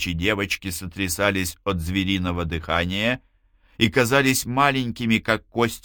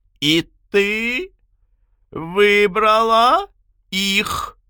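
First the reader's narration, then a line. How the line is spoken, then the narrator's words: Shrill squeal. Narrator (Russian): взвизгнула она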